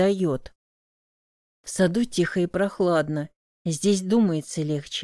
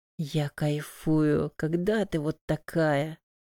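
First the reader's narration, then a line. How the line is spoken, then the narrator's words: Whisper in ear. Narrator (Russian): прошептал на ухо Моти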